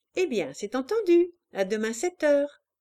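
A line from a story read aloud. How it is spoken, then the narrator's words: Cheerful woman. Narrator (French): dit-elle gaiement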